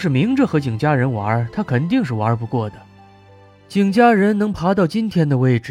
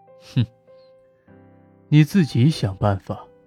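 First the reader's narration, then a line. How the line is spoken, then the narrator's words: Half-smiling. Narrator (Chinese): 穆江南似笑非笑的说道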